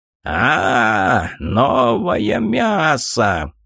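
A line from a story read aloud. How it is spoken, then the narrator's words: Hoarse croak. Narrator (Russian): хрипло прокаркал он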